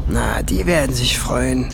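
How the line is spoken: Growling. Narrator (German): knurrte Schwefelfell

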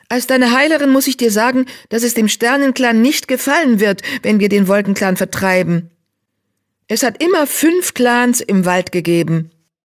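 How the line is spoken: Called out. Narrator (German): rief

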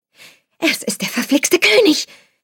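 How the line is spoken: Shouting through cupped hands. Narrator (German): hielt die hohlen Hände vor den Mund und schrie

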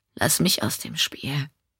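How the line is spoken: Plain. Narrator (German): sagte Sebastian

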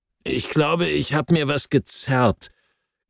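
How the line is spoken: Growl. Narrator (German): knurrte er

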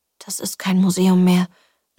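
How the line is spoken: Mumbled through teeth. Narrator (German): nuschelte sie zwischen den Zähnen

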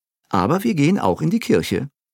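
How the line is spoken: Plain. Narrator (German): sagte Monsieur Béliveau

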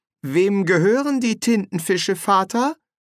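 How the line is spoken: Plain. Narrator (German): fragte

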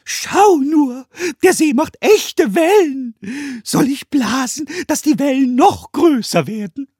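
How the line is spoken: Goblin shouting, enraptured. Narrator (German): der Kobold schrie hingerissen

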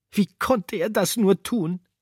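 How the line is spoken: Sobbing. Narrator (German): schluchzte

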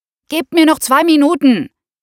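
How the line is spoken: Shouted over hairdryer noise. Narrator (German): rief über das Gebläse des Föhns hinweg

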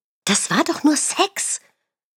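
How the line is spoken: Girlfriend hissing. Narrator (German): zischte meine Freundin

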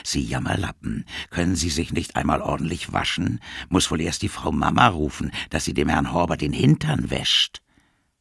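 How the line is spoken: Whisper. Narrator (German): flüsterte

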